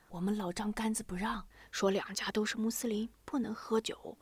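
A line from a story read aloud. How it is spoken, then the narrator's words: Whispered. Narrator (Chinese): 薛池悄声说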